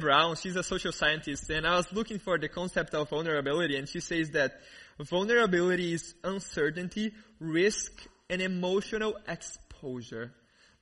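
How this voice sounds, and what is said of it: Thick Brazilian accent. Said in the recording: “I grew up in Brazil ... this really amazing accent, this really thick accent.”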